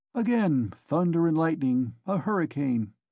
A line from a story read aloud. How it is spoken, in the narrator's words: said Nikodim Fomitch to Ilya Petrovitch in a civil and friendly tone